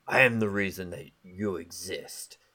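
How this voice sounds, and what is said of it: Imitating Shredder's villain voice. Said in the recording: “you do the Shredder voice ... I'm trying to do the voice, but my throat's a little bit sore.”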